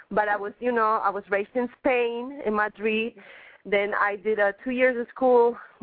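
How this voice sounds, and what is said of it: Mixed Spanish-French accented English. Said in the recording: “I speak Spanish, I speak French, and then I speak English. So that's why you got a very mixed accent. You can't tell where I'm from.”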